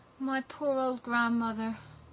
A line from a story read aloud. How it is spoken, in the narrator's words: sighed Gerda